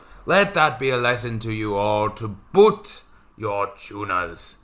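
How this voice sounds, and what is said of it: Changed character voice. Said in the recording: “Don't know why his voice has changed, but that's an interesting development ... This is how Liam's going to sound now.”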